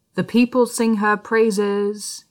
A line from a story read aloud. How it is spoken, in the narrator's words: he announced loudly over the wind